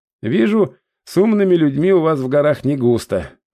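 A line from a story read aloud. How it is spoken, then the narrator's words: Sighing. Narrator (Russian): вздохнул я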